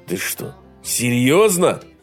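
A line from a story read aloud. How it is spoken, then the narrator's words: Indignant exclamation. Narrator (Russian): возмущенно воскликнул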